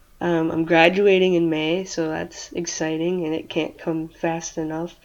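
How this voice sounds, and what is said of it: Michigan accent. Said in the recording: “was from Michigan and she had the same accent as you”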